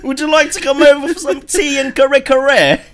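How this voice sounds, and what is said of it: Posh British accent. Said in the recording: “I think that's like the posh accent, right?”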